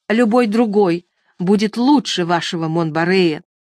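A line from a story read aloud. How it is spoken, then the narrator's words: Angry. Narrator (Russian): Туанетта, словно не слыша, сердито проговорила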